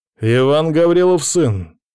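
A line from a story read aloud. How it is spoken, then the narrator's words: Calling loudly. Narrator (Russian): громко зову выборного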